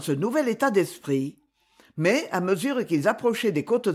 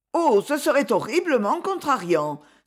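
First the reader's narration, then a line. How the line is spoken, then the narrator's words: Exclaimed. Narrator (French): s'écria Brigitte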